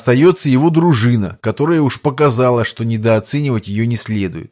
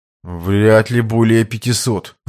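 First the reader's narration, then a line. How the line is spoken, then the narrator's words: Confused reply. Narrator (Russian): растерянно ответил тот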